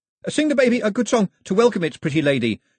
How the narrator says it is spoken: shouted Pilu after them

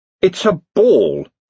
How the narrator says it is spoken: he snarled

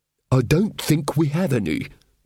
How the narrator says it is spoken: babbled the bursar happily

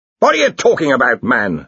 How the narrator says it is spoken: snapped Ridcully

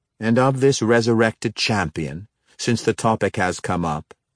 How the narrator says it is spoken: Xerath asked rather sharply

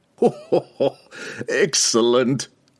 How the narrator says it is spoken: Pook laughed, thinking Regis to be grasping at a desperate lie

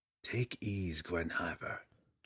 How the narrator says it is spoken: Drizzt called softly

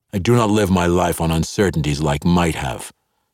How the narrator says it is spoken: Zakdafane replied

